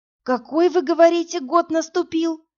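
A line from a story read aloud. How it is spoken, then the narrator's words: Hoarse question. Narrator (Russian): хрипло спросила Инна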